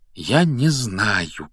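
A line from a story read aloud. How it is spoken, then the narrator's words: Quiet. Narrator (Russian): тихо произнес Гарри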